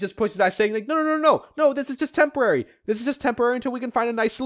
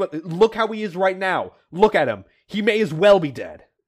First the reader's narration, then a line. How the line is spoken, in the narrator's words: Chuck snaps back saying